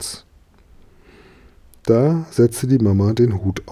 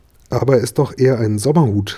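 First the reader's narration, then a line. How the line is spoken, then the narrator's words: Plain. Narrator (German): sagte die Mama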